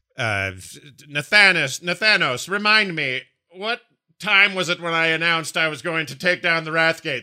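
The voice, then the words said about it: Poor impression of Sylvanas. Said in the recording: “That's a terrible impression of Sylvanas. I can't really do her”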